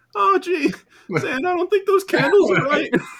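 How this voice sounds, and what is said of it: Pathetic-sounding Morty impression. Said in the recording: “You really do sound truly pathetic when you do that voice ... I do a pretty good Morty.”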